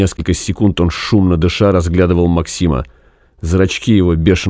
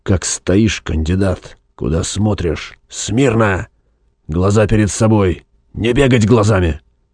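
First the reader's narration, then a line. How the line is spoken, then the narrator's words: Close-up hiss. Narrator (Russian): прошипел ему в лицо снизу вверх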